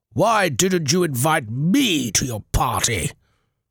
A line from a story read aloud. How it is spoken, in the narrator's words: he thundered